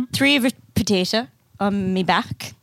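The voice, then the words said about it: Put-on hobbit-like accent. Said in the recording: “my accent's really changing round, isn't it? ... it's a hobbit accent.”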